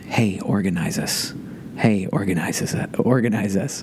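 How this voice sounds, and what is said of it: Whispered voice. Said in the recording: “whispering”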